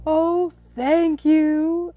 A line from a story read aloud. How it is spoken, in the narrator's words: exclaimed Pooh